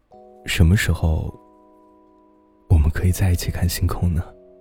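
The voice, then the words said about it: Very quiet, soft speech. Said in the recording (Chinese): “很小声的说”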